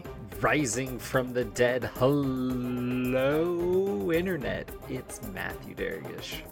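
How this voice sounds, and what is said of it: DJ announcer voice. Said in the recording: “So is that your DJ voice or your wrestling voice? ... I'm going to say DJ ... I feel like they talk like that in wrestling ring.”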